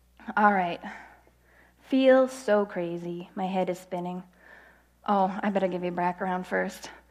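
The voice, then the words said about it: Congested voice from a cold. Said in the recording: “I have a cold, so I gotta wipe my nose.”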